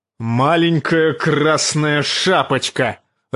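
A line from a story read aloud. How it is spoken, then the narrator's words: Barking shout. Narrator (Russian): рявкнул он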